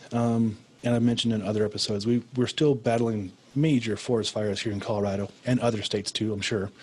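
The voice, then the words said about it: Raspy, hoarse voice. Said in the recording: “you can probably tell my voice is a lot raspier than normal”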